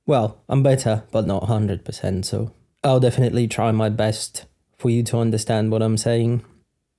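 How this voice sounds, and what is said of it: Slightly odd, unwell-sounding voice. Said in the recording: “I might still sound a bit odd ... my voice is a bit weird ... allergies hit. And then the mild cold”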